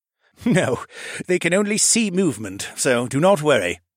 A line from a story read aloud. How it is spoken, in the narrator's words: chuckled